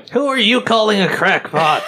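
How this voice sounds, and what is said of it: Conspiracy nerd character voice. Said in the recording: “doing that voice ... It's a great voice ... That is a fantastic voice ... my general conspiracy nerd voice”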